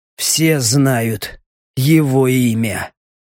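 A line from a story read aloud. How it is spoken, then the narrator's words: Hoarse rasp. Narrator (Russian): прохрипел Леха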